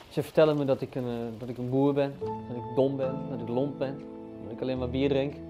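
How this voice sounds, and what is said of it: Dutch with a regional accent. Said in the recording (Dutch): “Ze hebben gezegd dat ze eigenlijk geen mensen met accent aannemen ... als je iemand afbrekent op hun accent”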